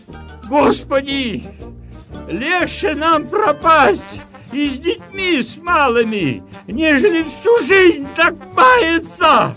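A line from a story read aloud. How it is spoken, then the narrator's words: Peasants pleading in chorus. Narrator (Russian): взмолились крестьяне всем миром Господу Богу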